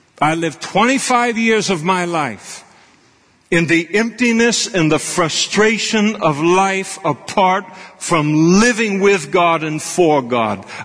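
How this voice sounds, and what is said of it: Raised, louder impassioned voice. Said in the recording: “I'm raising my voice now because these things mean so much to me.”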